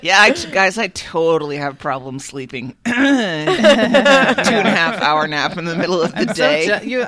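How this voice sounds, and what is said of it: Husky, huskier-than-usual voice. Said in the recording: “my voice is a little huskier than normal”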